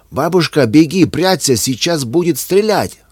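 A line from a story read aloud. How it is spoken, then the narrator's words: Desperate shout. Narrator (Russian): отчаянно закричал Вася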